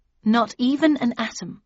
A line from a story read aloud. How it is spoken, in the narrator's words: I replied